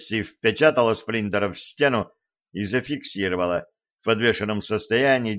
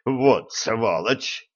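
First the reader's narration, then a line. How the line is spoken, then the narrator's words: Groaning. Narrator (Russian): простонал Шреддер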